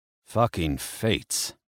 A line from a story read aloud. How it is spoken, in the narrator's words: he muttered